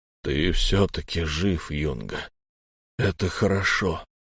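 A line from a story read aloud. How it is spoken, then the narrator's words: Weak voice. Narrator (Russian): слабым голосом произнес Торс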